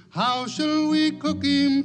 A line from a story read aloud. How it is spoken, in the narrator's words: cried Billy Barlow